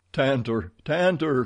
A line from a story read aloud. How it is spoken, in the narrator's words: he cried